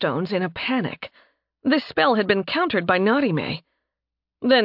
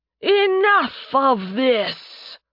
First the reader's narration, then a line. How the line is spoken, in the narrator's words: Thanatos boomed